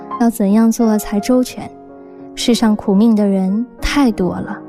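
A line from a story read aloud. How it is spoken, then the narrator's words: Sighing. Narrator (Chinese): 母亲也是呆呆地想了好久，叹口气说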